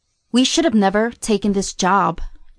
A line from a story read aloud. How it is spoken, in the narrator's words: Janet said